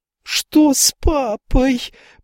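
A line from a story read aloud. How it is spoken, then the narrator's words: Shrill thin scream. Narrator (Russian): пронзительно закричала Рэйчел тоненьким, как травинка, голосом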